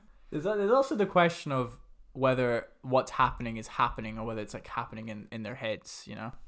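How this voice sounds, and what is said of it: Usual voice. Nothing is said of it.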